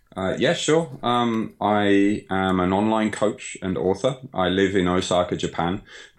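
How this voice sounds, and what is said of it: British Birmingham-area accent. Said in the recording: “as you can probably tell from my accent, I'm not Japanese. I was born in Birmingham, Sutton Coldfield”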